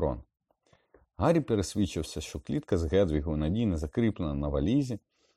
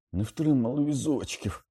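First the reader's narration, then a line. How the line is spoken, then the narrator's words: Pained groan, clutching ribs. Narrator (Ukrainian): простогнав, підводячись вхопився за ребра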